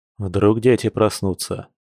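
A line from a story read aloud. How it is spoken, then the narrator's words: Man snorting. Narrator (Russian): хмыкнул мужчина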